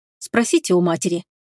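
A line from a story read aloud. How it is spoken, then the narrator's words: Curt angry retort. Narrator (Russian): отрезала Лая, зло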